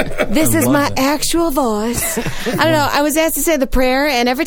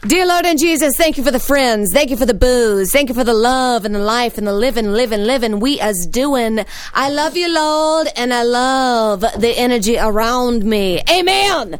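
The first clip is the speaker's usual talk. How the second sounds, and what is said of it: Put-on Southern lady accent. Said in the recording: “every time I say a prayer, I gotta say it in like a Southern lady ... accent”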